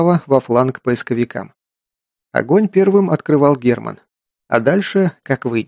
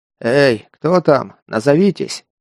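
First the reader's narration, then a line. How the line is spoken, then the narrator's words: Sighing. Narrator (Russian): вздохнул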